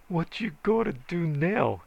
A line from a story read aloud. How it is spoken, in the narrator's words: He hollered